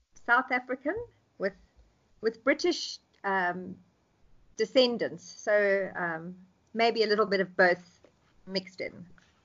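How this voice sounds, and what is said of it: South African accent, somewhat British-sounding. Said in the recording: “I hear the accents and I'm like, okay, where is that accent from? I'm not sure which one. It sounds a little bit British, but not. So South African, right? ... Almost sounds Australian too, a little bit.”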